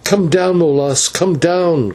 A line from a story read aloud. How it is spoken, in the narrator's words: cried